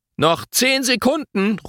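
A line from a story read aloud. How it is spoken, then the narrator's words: Calling. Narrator (German): ruft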